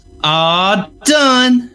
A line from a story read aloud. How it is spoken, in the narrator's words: she exclaimed